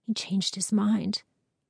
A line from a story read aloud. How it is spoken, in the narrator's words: whispered